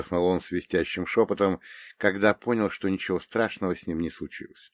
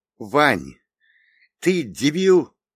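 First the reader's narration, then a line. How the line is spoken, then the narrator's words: Angry snap. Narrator (Russian): зло бросил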